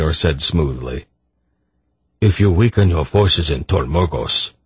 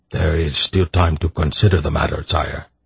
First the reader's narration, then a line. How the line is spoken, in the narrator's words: Brador added in a reasonable tone of voice